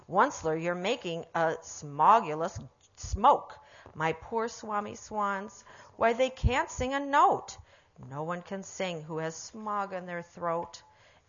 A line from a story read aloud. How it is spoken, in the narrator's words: he cried with a cruffulous croak